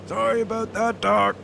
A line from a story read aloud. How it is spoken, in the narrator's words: Mo yelled over the sound of the whining propeller